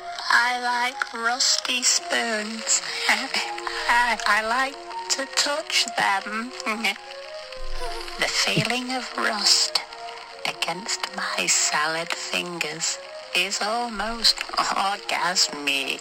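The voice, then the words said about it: Imitated creepy cartoon character voice. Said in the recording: “my impression was actually quite good. It's quite similar.”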